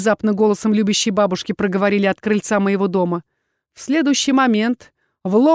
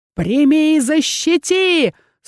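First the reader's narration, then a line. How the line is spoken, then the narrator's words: Sorcerer's wailing yell. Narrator (Russian): Снова завопил колдун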